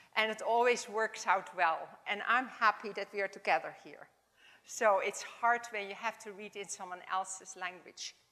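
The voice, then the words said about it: Dutch accent in English. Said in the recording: “my Dutch accent”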